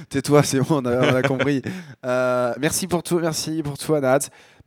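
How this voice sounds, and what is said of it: Strained voice, starting to give out. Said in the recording (French): “ma voix est en train de partir là, donc euh, je, je la sens”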